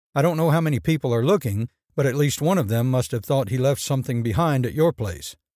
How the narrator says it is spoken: McHugh said firmly

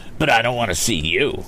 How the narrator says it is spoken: retorted the other sulkily

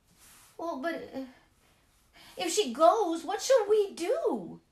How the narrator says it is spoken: they cried in despair

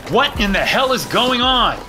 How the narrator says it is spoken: I shouted

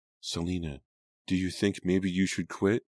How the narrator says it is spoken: Katie asked softly

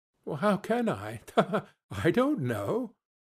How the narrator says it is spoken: she added in the same breath, laughing

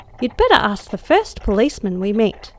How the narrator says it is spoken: cried I, with the foreboding fear heavier than before

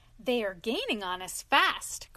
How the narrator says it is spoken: cried the engine driver

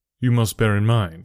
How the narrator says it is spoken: said I

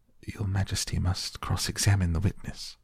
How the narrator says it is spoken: the White Rabbit, who said in a low voice

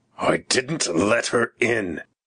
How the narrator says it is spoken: growled Mr

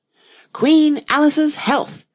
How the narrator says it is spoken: she screamed at the top of her voice

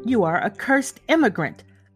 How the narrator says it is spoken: cried a farrier, making at him in a furious manner

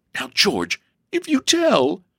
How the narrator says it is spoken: sobbed Elsie

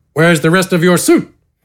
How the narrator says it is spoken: Gafgarn grunted

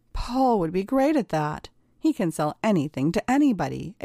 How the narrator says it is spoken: exclaimed

